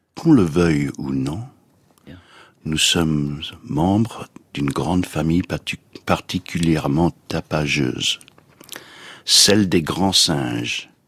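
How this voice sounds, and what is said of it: Put-on English accent in French. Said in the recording (French): “avec ce délicieux accent anglais”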